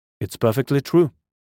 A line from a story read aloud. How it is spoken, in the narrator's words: I said